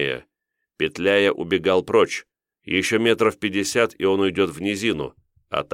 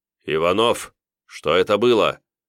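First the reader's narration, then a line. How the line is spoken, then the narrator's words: Stern question. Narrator (Russian): строгим голосом спросил комдив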